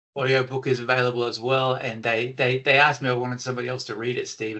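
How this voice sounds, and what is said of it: Australian accent. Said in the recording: “It needs to have an Australian accent.”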